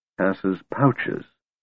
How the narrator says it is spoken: Tanis murmured

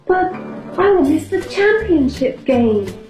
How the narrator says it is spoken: cried Beans

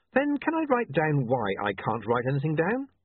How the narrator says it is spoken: William said, smiling brightly

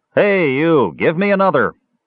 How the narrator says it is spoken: Flint called out over his shoulder

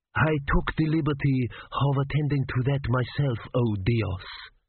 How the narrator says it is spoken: he purred

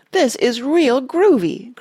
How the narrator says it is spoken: cried a boy

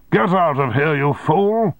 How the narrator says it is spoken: shouted

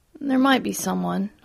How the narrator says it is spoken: I muttered

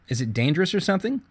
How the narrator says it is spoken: Zoe asked

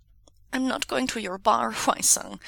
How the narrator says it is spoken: Wei Wuxian says, his voice muffled by the table

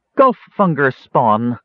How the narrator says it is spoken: snarled

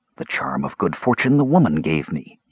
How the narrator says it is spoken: murmured

